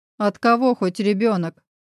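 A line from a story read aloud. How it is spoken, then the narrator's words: Contemptuous snort. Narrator (Russian): презрительно хмыкнул Кирилл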